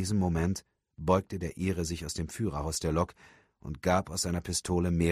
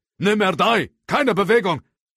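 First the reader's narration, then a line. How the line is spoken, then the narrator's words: Older man calling out. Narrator (German): der ältere Agent rief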